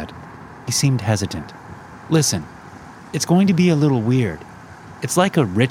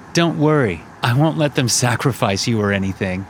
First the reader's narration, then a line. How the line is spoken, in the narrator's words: Connor said, laughing